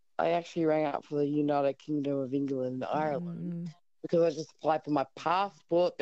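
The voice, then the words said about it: Australian accent. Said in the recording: “Aussie accent.”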